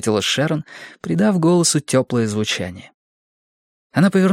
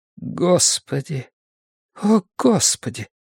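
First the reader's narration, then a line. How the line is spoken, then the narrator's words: Mutter. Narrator (Russian): пробормотала Шэрон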